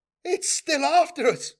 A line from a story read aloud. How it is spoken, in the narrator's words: shouted a young surveyor adept in near panic